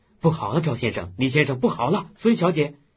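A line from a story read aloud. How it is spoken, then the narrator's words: Shouting. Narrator (Chinese): 顾尔谦直嚷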